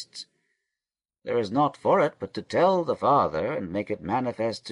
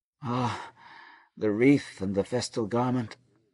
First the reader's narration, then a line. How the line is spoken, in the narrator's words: moaned Reuben